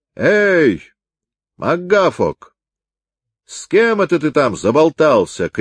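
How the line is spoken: Shout from below. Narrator (Russian): крикнул ему в это время снизу капитан

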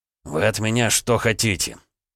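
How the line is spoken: Angry question. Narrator (Russian): зло спросил Дерешев

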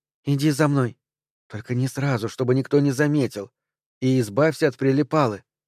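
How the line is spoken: Quick whisper. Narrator (Russian): Пайн быстро прошептала

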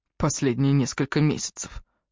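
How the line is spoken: Muttered. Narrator (Russian): буркнул Джастин

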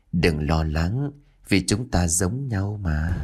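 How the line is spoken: Soft laugh. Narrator (Vietnamese): Kim liền khẽ cười

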